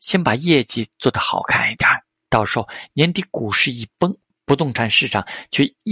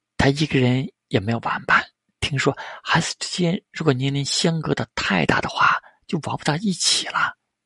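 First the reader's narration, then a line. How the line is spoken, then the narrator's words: Soft-spoken. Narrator (Chinese): 星野绫……轻声说道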